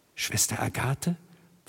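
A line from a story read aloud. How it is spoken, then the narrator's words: Barely audible whisper. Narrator (German): flüsterte, kaum hörbar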